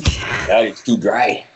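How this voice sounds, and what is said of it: Impression of speaker's father. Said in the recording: “I'll do an impression of my dad”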